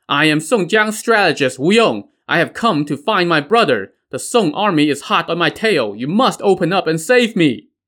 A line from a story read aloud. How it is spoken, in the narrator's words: The scholar rode up to the pass and called out